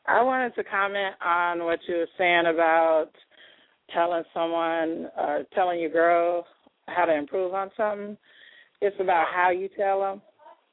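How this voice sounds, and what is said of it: Slightly scratchy voice. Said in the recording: “My voice was a little scratchy. I got a cold”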